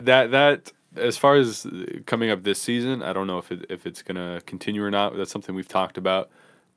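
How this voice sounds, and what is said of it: Smooth, polished radio-announcer voice. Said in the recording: “this fool has a dead ass good fucking radio voice ... Yeah, you do ... You really do”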